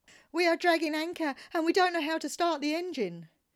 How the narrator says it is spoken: the two women screamed

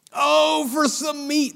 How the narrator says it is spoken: they exclaimed

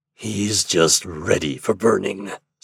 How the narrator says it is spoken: said the black man, with a growl of triumph

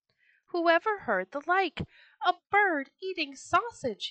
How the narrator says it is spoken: he cried

